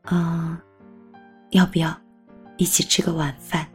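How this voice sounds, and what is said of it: Soft, quiet voice. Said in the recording (Chinese): “小声的问你一句”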